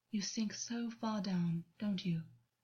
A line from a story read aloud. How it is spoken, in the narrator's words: August said softly